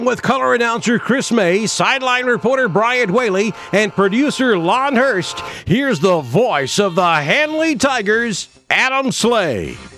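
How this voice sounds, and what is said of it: Polished radio announcer voice. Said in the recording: “he's got a good voice, good radio voice. Sounds like he's done it a time or two.”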